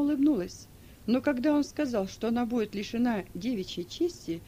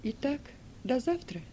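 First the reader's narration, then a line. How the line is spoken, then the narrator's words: Calm. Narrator (Russian): Спокойно отозвалась Сильва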